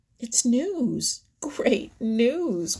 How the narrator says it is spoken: cried Little Joe

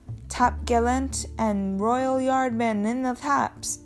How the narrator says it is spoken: cried

